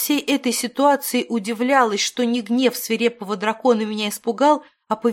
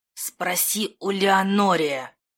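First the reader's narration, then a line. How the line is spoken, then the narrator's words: Hiss. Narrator (Russian): Прошипела, по-другому не скажешь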